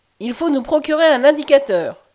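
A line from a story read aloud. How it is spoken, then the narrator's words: Widow exclaiming. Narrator (French): s'écria l'excellente veuve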